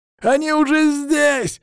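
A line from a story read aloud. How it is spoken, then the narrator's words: Yelling over radio. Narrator (Russian): завопил по рации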